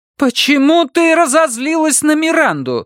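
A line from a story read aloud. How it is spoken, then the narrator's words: Nearly shouting. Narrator (Russian): Сусанна уже почти кричала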